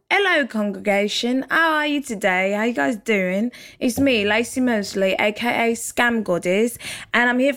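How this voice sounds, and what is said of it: Put-on British accent. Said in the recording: “Do you guys like my British accent?”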